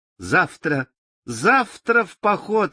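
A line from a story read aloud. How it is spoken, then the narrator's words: Cheerful shout. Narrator (Russian): весело закричала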